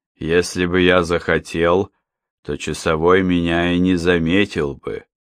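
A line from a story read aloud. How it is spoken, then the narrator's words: Even metallic voice. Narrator (Russian): говорил Вольф своим ровным металлическим голосом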